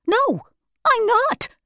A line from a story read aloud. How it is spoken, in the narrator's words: answered the lion happily